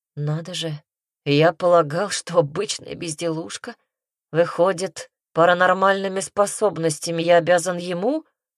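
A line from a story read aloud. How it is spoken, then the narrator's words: Skeptical snort. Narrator (Russian): Робин хмыкнул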